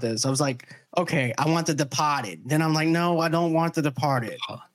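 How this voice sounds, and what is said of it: Slight Boston accent. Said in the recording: “my Boston accent is coming out a little bit when I say The Departed”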